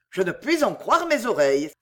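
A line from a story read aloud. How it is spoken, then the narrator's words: Exclaimed. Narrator (French): s'écria Sir Philip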